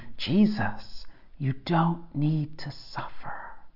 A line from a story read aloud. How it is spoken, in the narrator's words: The devil is whispering